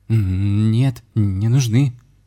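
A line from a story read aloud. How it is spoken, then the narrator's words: Frightened answer. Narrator (Russian): испуганно ответил Михаил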